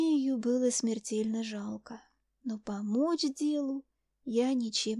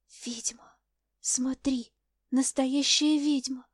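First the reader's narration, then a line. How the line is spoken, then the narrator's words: Frightened whisper. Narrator (Russian): прошептала в страхе Ани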